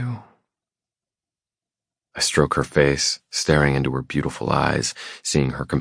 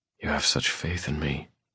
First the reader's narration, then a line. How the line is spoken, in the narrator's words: I murmur